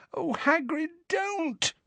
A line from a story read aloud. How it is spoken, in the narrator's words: moaned Hermione